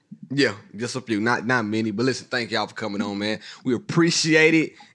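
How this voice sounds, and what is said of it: Hoarse, weakened voice. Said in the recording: “I lost my voice, but I'm trying to keep it civilized. I'm gonna get it back in a minute.”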